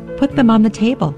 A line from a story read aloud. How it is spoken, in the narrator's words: said, and my voice had a tremble in it